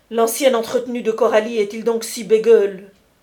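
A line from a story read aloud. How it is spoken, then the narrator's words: Exclaiming. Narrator (French): s'écria Vernou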